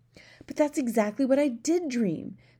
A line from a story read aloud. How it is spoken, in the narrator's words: the Queen cried out